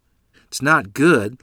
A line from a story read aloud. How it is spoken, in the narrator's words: Lottie said